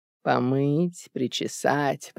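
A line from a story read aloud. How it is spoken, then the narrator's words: Muttering to herself. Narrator (Russian): пробормотала Марта Рудольфовна, словно разговаривая сама с собой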